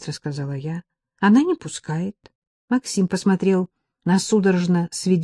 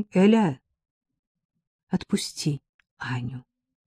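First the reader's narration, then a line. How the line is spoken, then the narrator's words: Gentle request. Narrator (Russian): попросил он мягко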